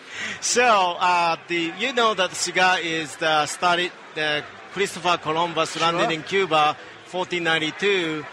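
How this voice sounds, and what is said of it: Japanese-accented English. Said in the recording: “you don't sound like you're from Columbus, Ohio ... I'm from Japan ... I recognize that accent is different than Ohio”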